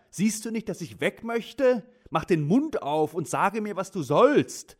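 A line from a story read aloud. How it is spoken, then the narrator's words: Call. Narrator (German): rief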